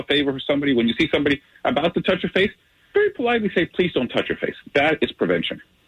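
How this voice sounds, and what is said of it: Romantic Hispanic accent. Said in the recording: “your romantic Hispanic accent”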